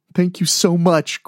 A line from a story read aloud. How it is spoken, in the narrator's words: Greg said between sobs